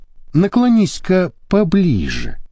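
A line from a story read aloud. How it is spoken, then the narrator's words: Gentle, coaxing. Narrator (Russian): ласково поманил Папа Сочинский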